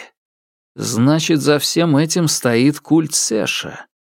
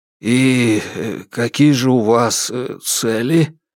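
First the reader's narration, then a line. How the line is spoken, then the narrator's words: Hoarse question. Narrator (Russian): хрипло спросил я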